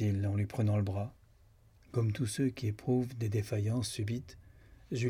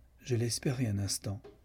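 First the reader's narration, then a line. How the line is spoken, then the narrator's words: Cold. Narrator (French): dit froidement Lucan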